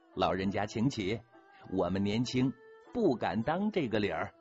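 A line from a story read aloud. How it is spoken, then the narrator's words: Childlike, smiling. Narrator (Chinese): 一脸孩子气的笑着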